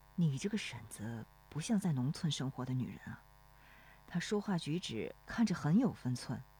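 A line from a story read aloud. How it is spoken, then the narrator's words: Quiet question. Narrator (Chinese): 罗生低声问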